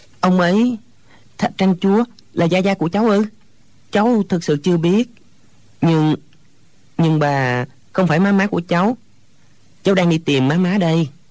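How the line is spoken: Hesitant stammering. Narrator (Vietnamese): Hồi lâu chàng mới ấp úng

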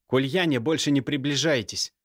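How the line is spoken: Threatening hiss. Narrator (Russian): угрожающе шипел Алексей

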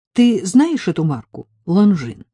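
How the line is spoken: Plain. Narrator (Russian): спросила она

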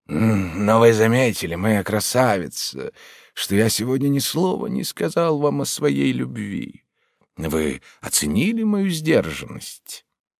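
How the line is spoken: Modest tender tone. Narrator (Russian): скромным чувствительным тоном произнес

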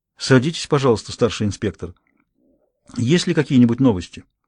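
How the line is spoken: Calm well-bred woman. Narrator (Russian): Клеменси Леонидис произнесла спокойным тоном хорошо воспитанной женщины

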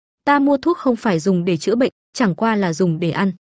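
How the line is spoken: Smiling. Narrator (Vietnamese): Đường Vũ Lân mỉm cười

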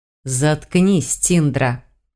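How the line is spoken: Sharp hiss. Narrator (Russian): прошипел Сальдазар

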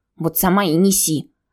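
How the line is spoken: Offended grumble from corner. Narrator (Russian): обиженно буркнули из угла

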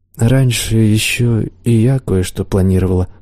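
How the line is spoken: Sad reply. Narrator (Russian): грустно ответила чародейка

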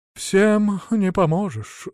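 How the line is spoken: Sighing. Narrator (Russian): вздохнул Василек

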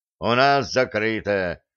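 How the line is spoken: Accented intercom voice. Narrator (Russian): с неожиданным акцентом ответила домофонная панель

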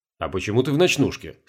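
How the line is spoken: Plain. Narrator (Russian): спросил Сергей

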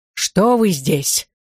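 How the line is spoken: Menacing, then breaking off. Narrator (Russian): начал Котов грозно и умолк

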